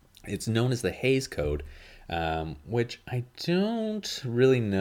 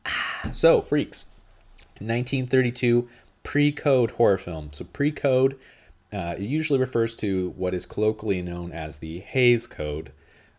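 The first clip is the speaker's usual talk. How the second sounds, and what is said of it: Loud, yelling into the mic. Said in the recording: “I feel like I'm yelling now. I'm going to back away a little bit from the mic here.”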